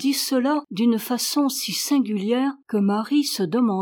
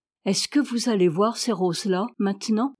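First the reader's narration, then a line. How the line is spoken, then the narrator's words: Plain. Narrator (French): demanda-t-elle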